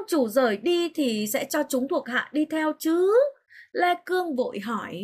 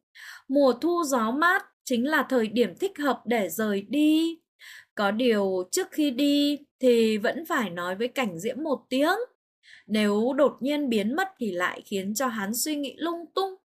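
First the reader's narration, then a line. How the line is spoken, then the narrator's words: Smiling. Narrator (Vietnamese): Mai Trường Tô mỉm cười nói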